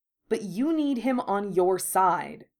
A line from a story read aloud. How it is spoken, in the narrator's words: Draco snapped